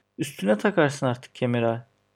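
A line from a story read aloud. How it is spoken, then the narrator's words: Laughing. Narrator (Turkish): dedi gülerek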